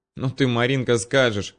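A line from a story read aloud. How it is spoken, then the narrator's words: Laughing. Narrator (Russian): рассмеялась Аня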